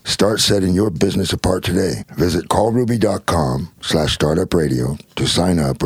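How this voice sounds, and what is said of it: Sexy, alluring voice. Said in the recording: “that's such a sexy voice. ... the way you say that”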